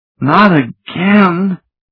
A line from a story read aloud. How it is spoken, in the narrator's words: she moaned